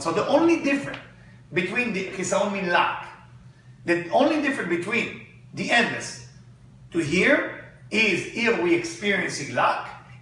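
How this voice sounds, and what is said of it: Accented non-native English. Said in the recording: “Lack, not with my accent, might sound like good luck.”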